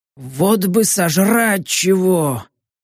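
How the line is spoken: Hoarse, suggestive old goblin. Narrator (Russian): Прохрипел с намеком седенький гоблин

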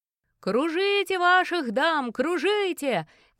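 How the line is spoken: Musician shouting. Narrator (Russian): кричал игравший на тамбурине музыкант

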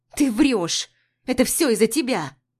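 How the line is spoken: Angry growl. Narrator (Russian): Зло рычит Дуня

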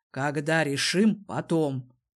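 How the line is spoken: Growled again. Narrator (Russian): повторно рыкнул на Ларну Дезмонд

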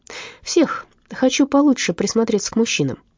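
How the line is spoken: Odd thoughtful explanation. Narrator (Russian): объяснил Гуннер странно, задумчиво

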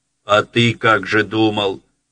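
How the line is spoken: Angry interruption. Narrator (Russian): сердито оборвал его Тимофей Тимофеевич

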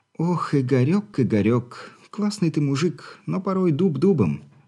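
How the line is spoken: Young woman sighing. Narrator (Russian): вздохнула девушка

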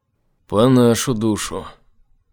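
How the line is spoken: Sigh. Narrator (Russian): вздохнул Айзек

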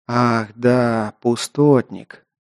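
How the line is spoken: Quiet. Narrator (Russian): негромко проговорил эльф

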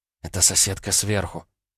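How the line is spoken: Whispered explanation. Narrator (Russian): почему-то шепотом пояснила

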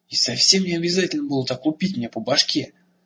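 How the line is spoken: Angry. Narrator (Russian): сердито сказал ему Эрагон

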